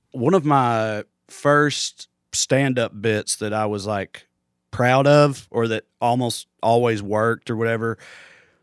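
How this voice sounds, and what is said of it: Thick Southern US accent. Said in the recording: “my accent because it's a thick one ... this accent ... even in the South”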